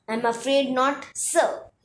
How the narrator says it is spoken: he said

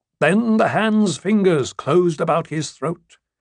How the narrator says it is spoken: says Mushroom

